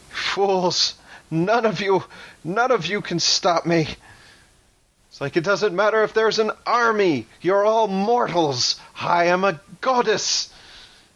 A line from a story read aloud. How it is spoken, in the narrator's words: Calypso laughs manically and she says